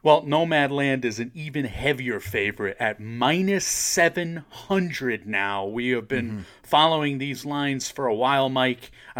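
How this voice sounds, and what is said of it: Sportscaster-style announcing voice. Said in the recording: “doing my sportscaster voice”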